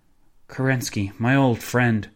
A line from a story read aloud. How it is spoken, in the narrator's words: the pianist sighed